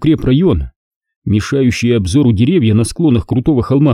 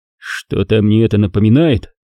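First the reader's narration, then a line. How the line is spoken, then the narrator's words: Amused snort. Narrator (Russian): хмыкнул Виктор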